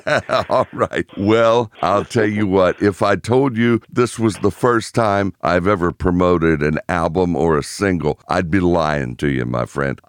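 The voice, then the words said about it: American accent. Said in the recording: “your fully formed, brilliant American accent”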